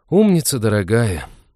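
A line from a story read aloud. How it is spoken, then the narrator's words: Heavy sigh. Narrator (Russian): тяжко вздохнул Натан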